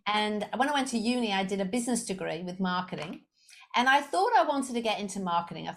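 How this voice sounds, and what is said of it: Slight Liverpool English accent. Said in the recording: “I do have a bit of an accent, just a little one. ... I'm originally I'm from Liverpool in the UK.”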